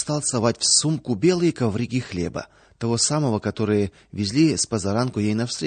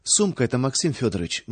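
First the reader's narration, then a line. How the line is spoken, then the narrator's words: Awkward mutter. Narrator (Russian): неловко пробормотала Луша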